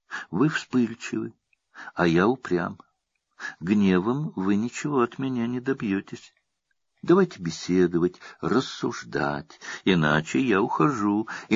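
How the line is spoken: Calm, smiling. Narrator (Russian): Не испугавшись этого взрыва корсиканского темперамента, Александр с улыбкой спокойно произносит

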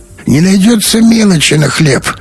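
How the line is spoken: Creaky voice. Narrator (Russian): проскрипел он

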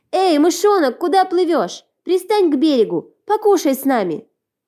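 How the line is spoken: Children shouting. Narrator (Russian): Дети закричали

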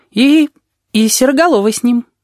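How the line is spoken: Uncertain. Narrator (Russian): неуверенно добавил Пышка

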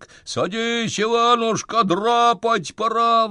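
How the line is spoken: Yelling. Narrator (Russian): вопит он

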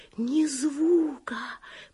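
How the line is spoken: Whisper. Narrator (Russian): прошептала Оливия

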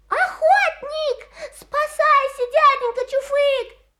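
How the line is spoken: Shout. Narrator (Russian): крикнул Русачок

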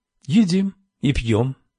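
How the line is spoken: Calm voice. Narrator (Russian): спокойно произнесла Камилла

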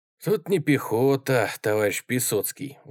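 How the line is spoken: Sigh. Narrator (Russian): вздохнул комиссар

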